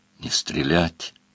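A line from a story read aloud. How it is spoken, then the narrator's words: Furious whisper. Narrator (Russian): сказал он яростным шепотом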